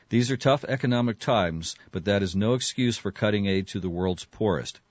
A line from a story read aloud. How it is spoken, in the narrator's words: Gates said